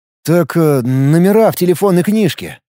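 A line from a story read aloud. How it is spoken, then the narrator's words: Confused. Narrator (Russian): растерянно заморгал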